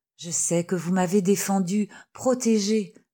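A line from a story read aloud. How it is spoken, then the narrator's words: Murmur. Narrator (French): murmura Berthe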